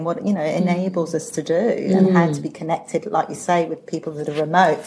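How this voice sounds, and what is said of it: Speaks with a noticeable accent. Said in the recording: “we do love that accent”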